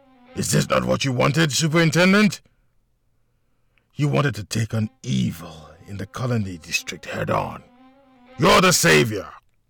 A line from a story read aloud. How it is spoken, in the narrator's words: he continued with an evil laugh